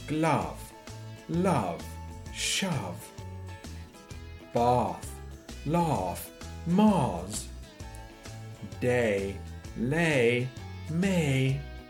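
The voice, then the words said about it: Posh English accent. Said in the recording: “speaking in a posh accent”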